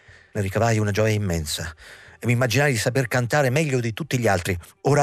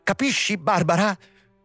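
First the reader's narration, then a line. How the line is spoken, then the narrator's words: Exclaimed. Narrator (Italian): esclamò Hendrik, portandosi le mani davanti al volto infuocato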